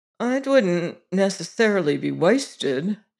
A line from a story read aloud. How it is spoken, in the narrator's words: he said a little uneasily